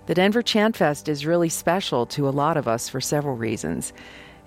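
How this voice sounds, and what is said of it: Congested voice from a cold. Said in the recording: “As you can probably hear in my voice, I caught a cold”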